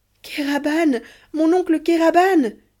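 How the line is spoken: Exclaimed. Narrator (French): s'écria Ahmet

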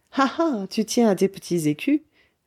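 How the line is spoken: Laughing. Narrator (French): dit-elle en riant

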